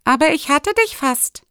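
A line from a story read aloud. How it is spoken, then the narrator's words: Called out. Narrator (German): rief Risser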